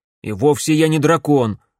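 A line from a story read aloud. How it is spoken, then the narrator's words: Snapping retort. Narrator (Russian): огрызнулся Макс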